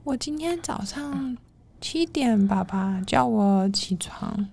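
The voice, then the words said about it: Quiet, very slow child's voice. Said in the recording (Chinese): “她讲话很小声又很慢”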